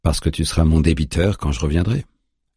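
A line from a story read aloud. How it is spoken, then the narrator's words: Calm reply. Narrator (French): lui répond Juna calmement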